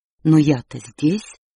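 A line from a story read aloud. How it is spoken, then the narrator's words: Offended. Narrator (Russian): обиженно сказал Дэйв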